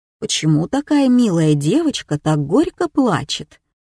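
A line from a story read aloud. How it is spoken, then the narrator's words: Calm question. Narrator (Russian): спокойным голосом спросил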